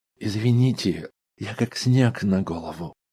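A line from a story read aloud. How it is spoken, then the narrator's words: Soft speech. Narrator (Russian): мягко произнес Мэлс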